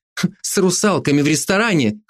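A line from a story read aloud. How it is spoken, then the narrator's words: Snorting, wry. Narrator (Russian): хмыкнула я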